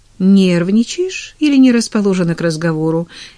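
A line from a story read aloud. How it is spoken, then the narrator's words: Cheerful teasing. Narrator (Russian): весело поддразнила Эмили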